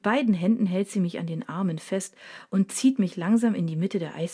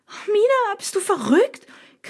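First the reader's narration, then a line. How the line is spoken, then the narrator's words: Panicked shriek. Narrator (German): kreische ich panisch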